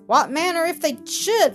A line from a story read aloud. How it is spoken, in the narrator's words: laughed Mildred